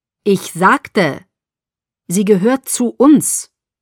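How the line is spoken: Firm correction. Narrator (German): korrigierte Carlyle mit fester Stimme

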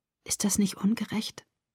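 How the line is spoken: Whispered. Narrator (German): flüsterte

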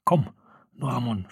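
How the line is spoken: Whispering. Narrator (German): flüsterte Farodin

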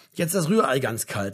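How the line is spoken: Mother calling. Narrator (German): rief seine Mutter

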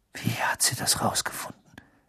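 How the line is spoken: Whisper. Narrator (German): wisperte er

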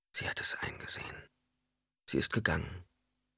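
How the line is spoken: Whispering. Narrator (German): flüsterte

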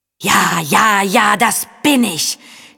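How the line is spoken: Wild roar. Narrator (German): schien so ungestüm zu brüllen

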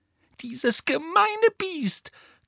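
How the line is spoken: Gasping, furious. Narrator (German): keuchte Hermine, die so zornig war, dass sie kaum reden konnte

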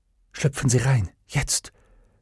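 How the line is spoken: Whisper. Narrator (German): flüsterte sie

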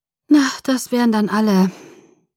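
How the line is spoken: Sighing. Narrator (German): sagte ich seufzend

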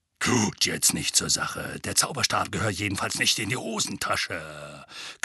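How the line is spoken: Growled. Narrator (German): knurrte

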